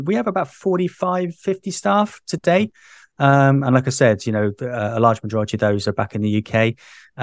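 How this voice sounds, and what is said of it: British English accent. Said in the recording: “as you can tell from my accent, I'm originally from the UK”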